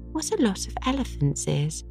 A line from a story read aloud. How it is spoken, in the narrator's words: exclaimed Diana